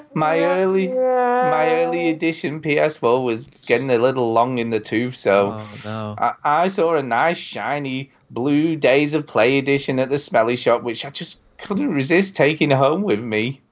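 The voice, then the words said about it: Sad voice. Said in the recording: “I'm gonna read this in a sad voice”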